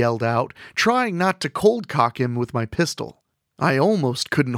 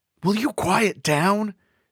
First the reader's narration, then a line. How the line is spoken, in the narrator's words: Jimmy whispered to me